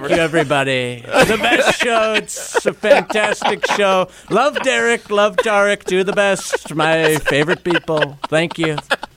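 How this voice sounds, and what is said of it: Donald Trump impression. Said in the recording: “did an unbelievable Trump impersonation.”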